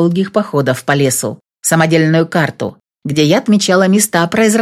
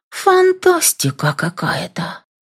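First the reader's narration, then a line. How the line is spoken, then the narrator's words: Whisper. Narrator (Russian): шептала я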